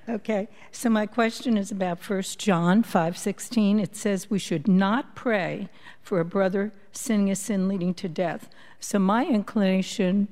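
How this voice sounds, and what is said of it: Brooklyn accent. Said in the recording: “born and bred in Brooklyn. ... I hear it. ... I can't get rid of the accent.”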